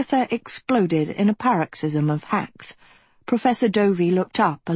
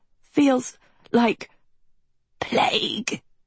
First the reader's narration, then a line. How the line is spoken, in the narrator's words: Agatha wheezed